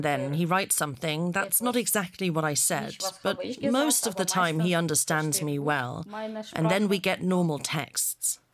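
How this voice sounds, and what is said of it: Strong accent. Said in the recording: “I have a strong accent”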